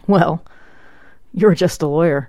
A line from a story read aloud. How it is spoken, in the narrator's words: Engel chuckled